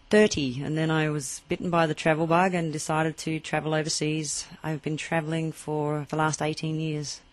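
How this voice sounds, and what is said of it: Australian accent. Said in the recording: “your accent is not German, nor is it Irish ... Adelaide, Australia.”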